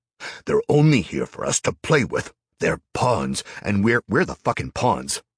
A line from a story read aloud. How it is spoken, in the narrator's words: snapped, feeling a rage bubble up